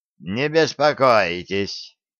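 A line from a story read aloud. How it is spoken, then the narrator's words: Old man's quavering voice. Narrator (Russian): дребезжащим голосом сказал старик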